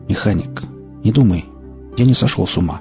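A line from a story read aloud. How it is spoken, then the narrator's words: Quiet. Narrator (Russian): тихо произнес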